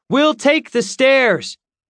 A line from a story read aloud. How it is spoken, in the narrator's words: shouted out the window to Ulysses